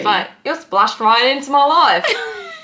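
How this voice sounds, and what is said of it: Unconvincing attempted English accent. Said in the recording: “that was my English accent... It sounded nothing like it... it's not Australian. It's certainly not English.”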